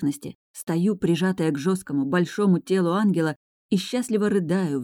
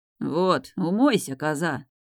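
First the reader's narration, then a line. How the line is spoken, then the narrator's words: Peaceable mutter. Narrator (Russian): Миролюбиво бормочет ангел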